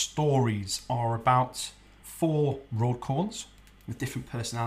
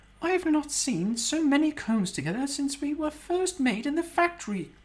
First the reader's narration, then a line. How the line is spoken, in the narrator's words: Constance squeaked